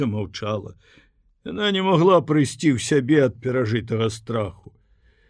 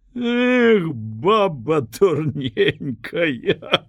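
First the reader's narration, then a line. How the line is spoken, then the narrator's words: Laughing sincerely, childlike. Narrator (Belarusian): смяяўся ён, шчыра, як дзіця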